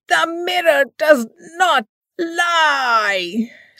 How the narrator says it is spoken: screamed

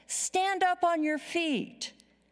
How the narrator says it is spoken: So Paul called out

